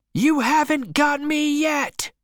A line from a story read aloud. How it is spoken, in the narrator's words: he screamed